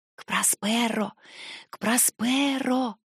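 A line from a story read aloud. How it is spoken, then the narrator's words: Whispered like an incantation. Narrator (Russian): прошептала Корделия, будто заклинание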